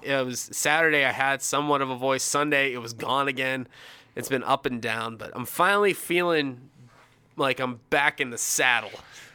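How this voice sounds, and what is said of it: Slightly hoarse, recovering voice. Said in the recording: “you're going to hear it in my voice a little bit, but Friday, I barely had a voice.”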